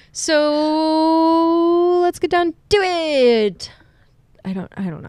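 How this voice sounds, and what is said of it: Booming game-show announcer voice. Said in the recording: “I sound like a web show host or something, like a game show host. ... You sound like a WWE announcer.”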